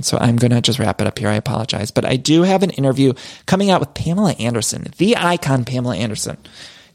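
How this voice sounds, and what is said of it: Tired, strained, fading voice. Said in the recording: “I'm tired. My voice, I can't even talk anymore. I feel like I'm losing my voice”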